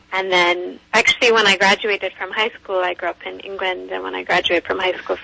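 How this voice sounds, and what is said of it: Slightly Irish-sounding accent. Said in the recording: “I caught that accent. It sounds a little bit Irish.”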